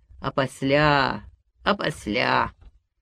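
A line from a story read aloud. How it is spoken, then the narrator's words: Rusty voice. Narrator (Russian): он говорил ржавым голосом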